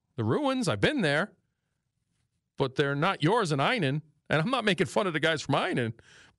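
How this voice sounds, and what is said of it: New York accent. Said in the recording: “it's my New York accent”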